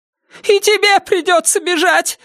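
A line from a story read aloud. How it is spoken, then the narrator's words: Shrill squeal. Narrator (Russian): взвизгнула миссис Паракис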